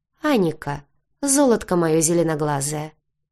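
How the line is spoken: Soft, ingratiating. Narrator (Russian): вкрадчиво произнес Брай

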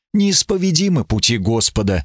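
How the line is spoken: Sighing. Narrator (Russian): вздохнул он

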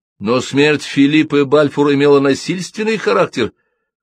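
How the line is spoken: Journalist shouting out. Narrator (Russian): выкрикнул какой-то журналист

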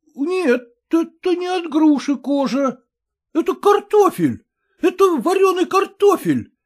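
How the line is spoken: Exclamation. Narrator (Russian): воскликнул Кротиков

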